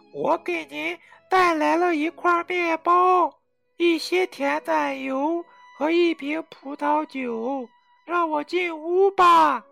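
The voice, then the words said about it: Quiet pinched-nose voice. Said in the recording (Chinese): “捏着鼻子， 小声说”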